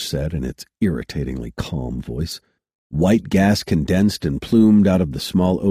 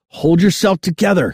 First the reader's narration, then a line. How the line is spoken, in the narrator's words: he yelled, his voice echoing in the empty bridge